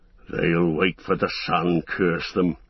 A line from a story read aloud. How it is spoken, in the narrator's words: growled one of the guards